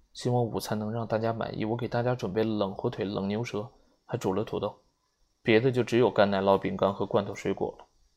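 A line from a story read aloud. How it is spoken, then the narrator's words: Anxious low voice. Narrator (Chinese): 他 着急的低声的说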